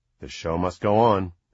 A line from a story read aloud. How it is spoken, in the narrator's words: Annie said grimly